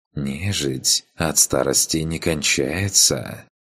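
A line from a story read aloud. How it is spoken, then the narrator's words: Insinuating demoness voice. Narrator (Russian): вкрадчивым голосом произнесла демонесса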